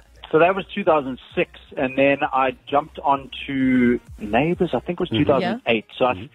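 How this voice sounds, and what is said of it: South African accent. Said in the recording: “it's still straight up South African”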